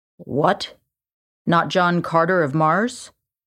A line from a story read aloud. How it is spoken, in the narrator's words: asked dryly